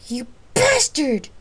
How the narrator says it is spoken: shouted Gabrielle to Ares

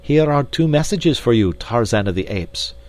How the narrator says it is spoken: cried D'Arnot

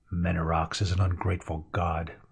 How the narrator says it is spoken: muttered Miran

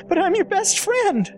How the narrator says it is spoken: Gordon pleaded

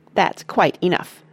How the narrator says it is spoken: snapped Grandma Josephine

